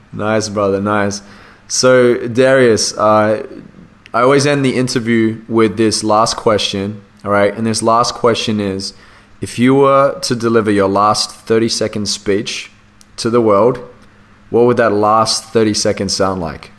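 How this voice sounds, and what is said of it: Australian accent. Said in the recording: “I made you sound a little bit posh and fancy there with the Darius, with my Australian accent.”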